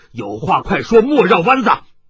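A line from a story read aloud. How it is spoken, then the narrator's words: Loud old man. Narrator (Chinese): 雷鞭老人大声地说道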